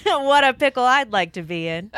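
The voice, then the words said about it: Car salesman voice. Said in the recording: “you sound like a car salesman”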